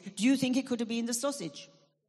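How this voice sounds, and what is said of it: Put-on French accent. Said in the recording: “with a French accent, obviously”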